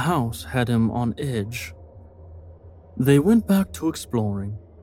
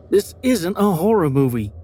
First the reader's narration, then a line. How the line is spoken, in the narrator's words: snapped, harsh tone